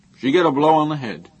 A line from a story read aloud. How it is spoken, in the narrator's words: Haber said in a loud medical voice